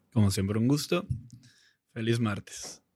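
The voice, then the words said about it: Announcer voice. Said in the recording (Spanish): “Con voz de locutor”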